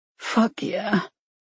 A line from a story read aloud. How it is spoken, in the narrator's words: Dee groaned